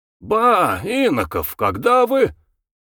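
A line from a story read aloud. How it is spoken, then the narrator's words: Joyful exclamation. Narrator (Russian): радостно вскричал фельетонист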